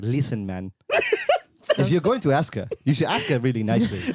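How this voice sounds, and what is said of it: Poor attempt at Singaporean accent. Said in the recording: “he's Singaporean and I can't do the accent well ... That sounds Indian. ... that's not Singaporean.”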